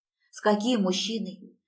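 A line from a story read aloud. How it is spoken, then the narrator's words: Trembling question. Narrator (Russian): спрашиваю дрожащим голосом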